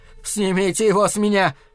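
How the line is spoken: Shout. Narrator (Russian): крикнул он

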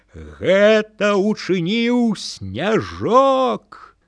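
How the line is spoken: Sudden thunderous shout. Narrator (Belarusian): раптам ён закрычаў грымотным голасам

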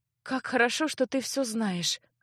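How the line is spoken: Thoughtful sigh. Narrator (Russian): рассудительно вздохнула девушка

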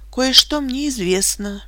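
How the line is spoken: Said softly. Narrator (Russian): мягко сказала я

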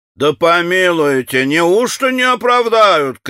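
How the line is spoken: Shouting young man. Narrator (Russian): кричал один из молодых наших чиновников

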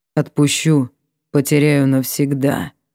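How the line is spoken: Muffled reply. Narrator (Russian): отозвался он глухо

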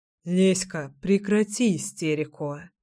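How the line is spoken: Calm mutter. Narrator (Russian): спокойно пробормотал Кирилл

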